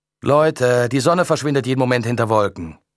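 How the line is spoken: Calling out again. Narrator (German): rief Leon wieder

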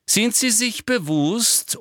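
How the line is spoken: Loud interrupting. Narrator (German): unterbrach ihn Umbridge laut

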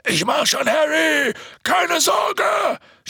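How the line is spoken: Shouting. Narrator (German): schrie Hagrid

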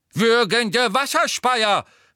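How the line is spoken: Startled exclamation. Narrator (German): rief, der die Prüfung ebenfalls völlig vergessen zu haben schien

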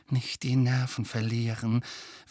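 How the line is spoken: Urgent whisper. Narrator (German): wisperte Hermine Harry und Ron eindringlich zu

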